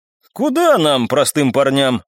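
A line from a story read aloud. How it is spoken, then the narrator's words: Laughing. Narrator (Russian): рассмеялся я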